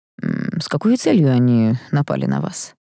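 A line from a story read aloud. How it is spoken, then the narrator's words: Dry question. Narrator (Russian): сухо спросил ректор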